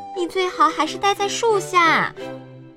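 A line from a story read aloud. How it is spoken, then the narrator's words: Shouting woman. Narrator (Chinese): 女农场主叫道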